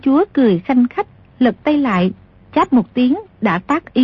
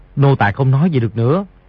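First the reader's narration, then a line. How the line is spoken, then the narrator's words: Lowered voice. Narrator (Vietnamese): hạ giọng nói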